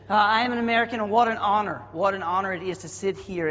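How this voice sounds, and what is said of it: Southern American accent. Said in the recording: “my accent won't get in the way of this morning a little bit... I don't even speak American. I really speak Southernese.”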